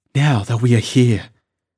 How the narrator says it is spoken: said the girl, rather breathlessly

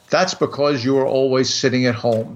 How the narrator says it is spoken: said the cat

